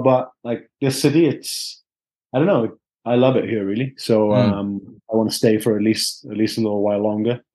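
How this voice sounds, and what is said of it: Welsh accent. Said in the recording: “got a proper Welsh accent ... You got a proper Vardy accent”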